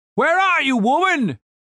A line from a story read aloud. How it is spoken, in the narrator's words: Commander Righteous called out